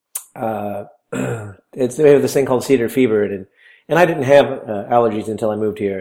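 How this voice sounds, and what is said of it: Low-energy, strained voice. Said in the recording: “Your energy level sounds a little low. You didn't quite punch it like you usually do ... my voice is killing me”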